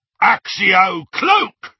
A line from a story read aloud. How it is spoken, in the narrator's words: roared one of the Death Eaters